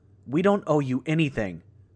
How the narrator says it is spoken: spat

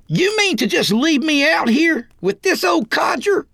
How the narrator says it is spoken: Roy yelled like a stuck pig

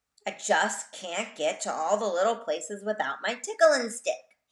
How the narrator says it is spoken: he grumbled

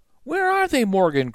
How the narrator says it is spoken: cried Annie

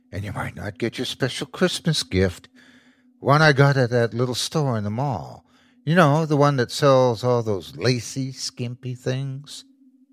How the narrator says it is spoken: she whispered

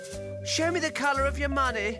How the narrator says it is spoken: she gasped

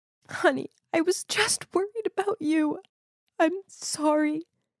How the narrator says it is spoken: said while sobbing

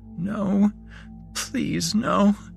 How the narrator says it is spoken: She heard herself whimper

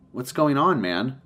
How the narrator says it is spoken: He sighed

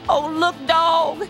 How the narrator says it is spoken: Mac pleaded

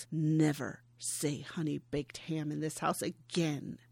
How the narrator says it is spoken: Nora snarls

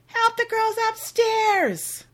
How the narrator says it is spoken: busy in the kitchen finishing up dinner and yells

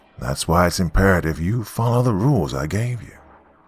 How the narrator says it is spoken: he calmly replied

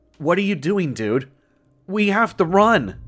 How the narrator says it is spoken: James shouted desperately

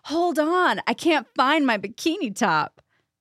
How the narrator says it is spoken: I actually yelled out

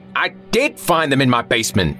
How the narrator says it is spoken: Linus exclaimed hotly

